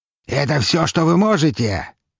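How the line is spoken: Barked. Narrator (Russian): рявкнул он

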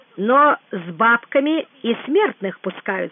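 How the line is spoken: Plain. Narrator (Russian): сказал Иван

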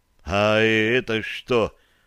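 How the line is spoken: Mumbling. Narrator (Russian): промямлил Петр

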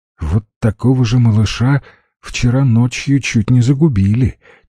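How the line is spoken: Heavy sigh. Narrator (Russian): тяжело вздохнула Валя

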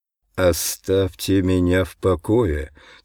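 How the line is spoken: Hateful speech through teeth. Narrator (Russian): цежу я сквозь зубы от ненависти

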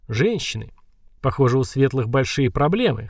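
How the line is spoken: Short laugh. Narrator (Russian): хохотнул

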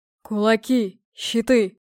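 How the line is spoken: Roaring. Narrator (Russian): проревел Скалолом

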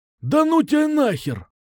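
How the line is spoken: Exclaimed with feeling. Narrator (Russian): С чувством воскликнул Кукуша

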